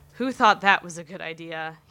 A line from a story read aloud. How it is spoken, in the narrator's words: He chuckles